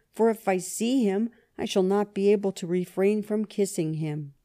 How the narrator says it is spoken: he exclaimed

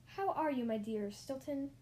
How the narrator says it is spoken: the voice squeaked

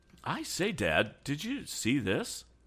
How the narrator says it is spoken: Suddenly exclaimed Tom

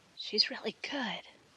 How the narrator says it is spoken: whispered Mrs

